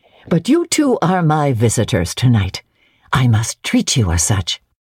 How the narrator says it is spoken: rousing herself, she said cheerfully

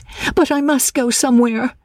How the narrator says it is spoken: she cried

